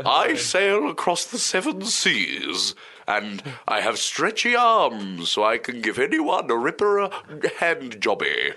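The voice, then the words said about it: Put-on American accent. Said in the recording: “It's sort of that, but with an American accent.”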